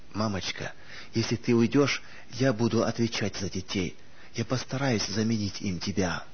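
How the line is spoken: Choked comforting whisper. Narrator (Russian): Сдерживая стон, готовый вырваться из груди, Анита, стараясь утешить ее, прошептала

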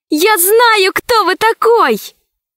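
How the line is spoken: Shouting. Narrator (Russian): закричала Алиса

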